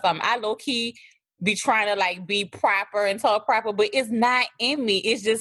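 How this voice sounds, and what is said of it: Thick New Orleans accent. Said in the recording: “y'all love my accent ... it's thick. I mean, it's thick, but I'm from New Orleans”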